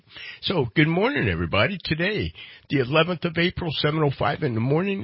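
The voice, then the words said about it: Congested, stuffy nasal voice. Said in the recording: “I am in the throes of allergy season. Can you hear it in my voice? ... my whole head is stopped up”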